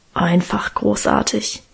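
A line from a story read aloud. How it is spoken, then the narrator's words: Reverent mumble. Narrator (German): brummelte Guste andächtig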